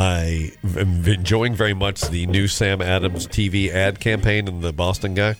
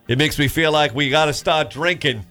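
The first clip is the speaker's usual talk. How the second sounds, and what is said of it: Put-on Boston accent. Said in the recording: “that's my Boston accent. You like that guy?”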